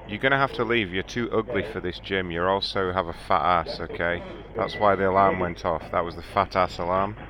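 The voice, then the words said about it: Australian accent. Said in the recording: “he has a British accent. Australian, whatever. ... Australian”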